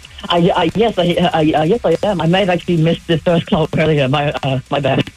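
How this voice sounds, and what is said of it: British London accent. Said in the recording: “What is that accent you have ... British. London.”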